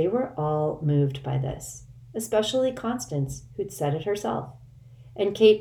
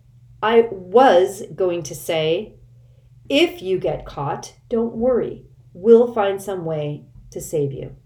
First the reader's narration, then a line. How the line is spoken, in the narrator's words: In a vexed tone, Constance said